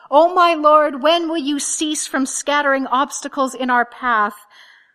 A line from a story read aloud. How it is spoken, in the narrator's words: Teresa of Avila, is reported once to have cried out